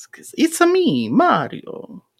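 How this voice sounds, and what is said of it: Mario-style cartoon accent. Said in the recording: “The true accent.”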